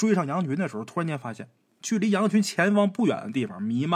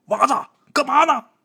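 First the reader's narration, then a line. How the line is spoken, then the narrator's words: Old man calling out. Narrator (Chinese): 刘老汉一边喊他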